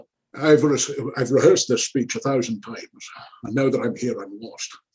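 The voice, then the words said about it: Imitates another person's voice. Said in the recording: “best Sean Connery impersonation ever”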